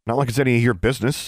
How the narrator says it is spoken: Alexandra snapped

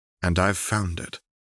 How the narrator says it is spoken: Renata said gently

